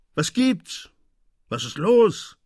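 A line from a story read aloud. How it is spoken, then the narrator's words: Angry shouting. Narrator (German): rief man ihm wütend zu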